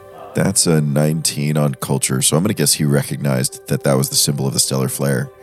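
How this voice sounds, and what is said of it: Weak voice with a cough. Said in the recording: “my voice is a little weak. I've got a bit of a cough”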